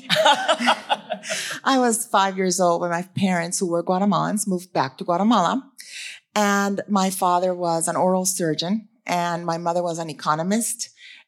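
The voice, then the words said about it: Non-local foreign-sounding accent. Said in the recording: “you can tell by my accent, I'm not from Durham ... this is my version of a Philly accent”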